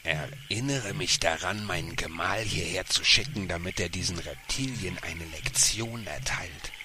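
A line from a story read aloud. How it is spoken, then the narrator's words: Hissed. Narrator (German): fauchte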